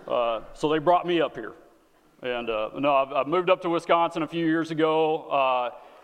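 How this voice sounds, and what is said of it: Texan accent. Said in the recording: “get acclimated to the accent... I am not from Wisconsin... I am from the great nation of Texas”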